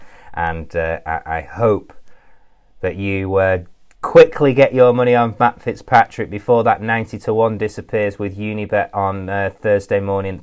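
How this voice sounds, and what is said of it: Breathless, out-of-breath speech. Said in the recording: “I'm a bit out of breath, as you can tell”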